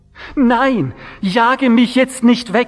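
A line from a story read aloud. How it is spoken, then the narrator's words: Pleading. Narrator (German): flehte sie ihn an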